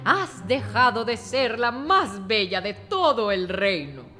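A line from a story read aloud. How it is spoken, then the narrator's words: Old woman laughing. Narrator (Spanish): dijo la vieja riendo, mientras huía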